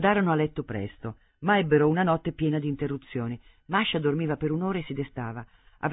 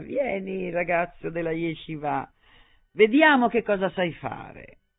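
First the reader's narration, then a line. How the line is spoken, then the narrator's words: Tipsy, urging voice. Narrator (Italian): esortandolo con voce brilla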